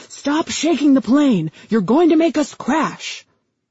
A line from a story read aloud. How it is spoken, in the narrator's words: the co-pilot turned and screamed